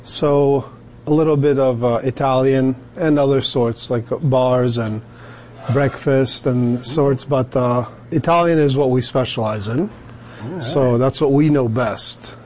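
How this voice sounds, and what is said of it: Slight foreign accent. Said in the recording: “I hear a little bit of an accent.”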